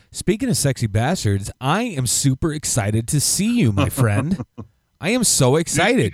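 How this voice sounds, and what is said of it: Excited, noticeably higher-pitched voice. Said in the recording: “Your voice went up an octave”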